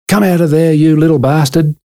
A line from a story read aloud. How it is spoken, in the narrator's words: Mum, she'd yell and scream